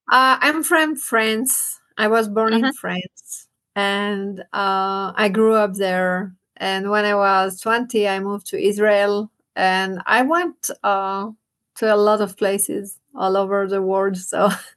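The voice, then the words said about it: Mixed French and Hebrew accent. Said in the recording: “it's a mix of my accent. It's a mix of Hebrew, French, and”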